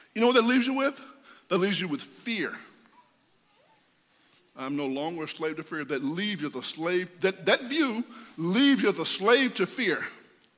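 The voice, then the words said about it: Strained voice, losing his voice. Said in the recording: “I'm losing my voice”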